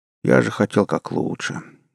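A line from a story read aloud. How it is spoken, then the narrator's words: Sad sigh. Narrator (Russian): грустно вздохнул первый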